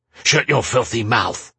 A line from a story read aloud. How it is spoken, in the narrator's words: Tarin snapped back